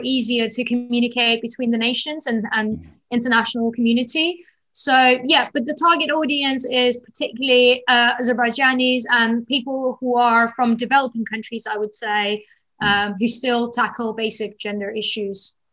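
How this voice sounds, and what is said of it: Slight London accent. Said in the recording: “your accent has a bit of a London twang.”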